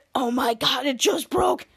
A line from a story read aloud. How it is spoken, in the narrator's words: he whispers to Jasper and said